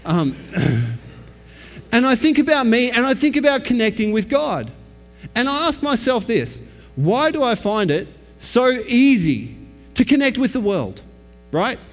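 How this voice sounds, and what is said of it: Australian accent. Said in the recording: “Some crazy Australian guy who's got a weird accent. This is me in my natural state”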